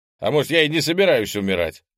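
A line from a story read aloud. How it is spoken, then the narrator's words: Shouted reply. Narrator (Russian): выкрикнул в ответ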